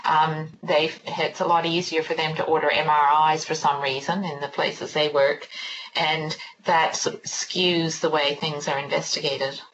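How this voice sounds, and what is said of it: Canadian accent. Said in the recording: “You may be able to tell from my accent, I'm from Canada originally”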